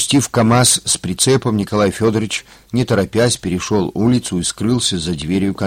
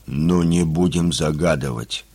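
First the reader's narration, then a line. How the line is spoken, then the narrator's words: Grumbling. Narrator (Russian): пробурчал Мошкин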